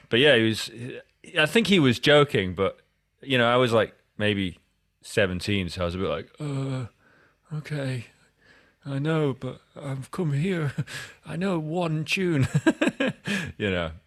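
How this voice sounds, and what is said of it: Scottish accent. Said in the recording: “my that Scottish accent”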